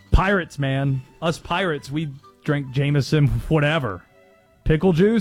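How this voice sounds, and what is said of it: Usual voice. Nothing is said of it.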